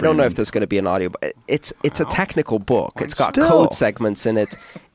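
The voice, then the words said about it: Weird Greek-British accent. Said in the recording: “my weird Greek-British accent”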